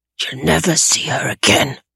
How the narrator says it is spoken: the man whispered into Tobias's right ear

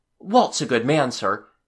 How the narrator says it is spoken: Larry said earnestly

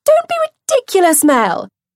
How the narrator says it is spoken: Sophie piped up eagerly

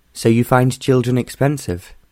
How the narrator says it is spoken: John asked

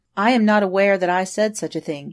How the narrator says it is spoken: answered Elliston

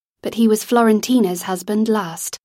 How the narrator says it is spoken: Lizzie said in an even tone

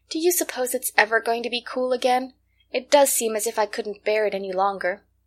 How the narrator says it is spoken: she sighed

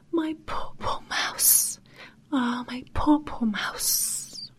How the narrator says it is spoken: weep and sigh

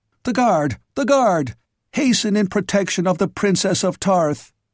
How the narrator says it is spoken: exclaimed

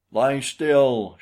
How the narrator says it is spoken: shouted Bradley

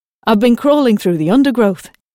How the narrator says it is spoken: replied cheerfully

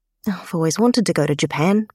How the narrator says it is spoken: Emma murmurs

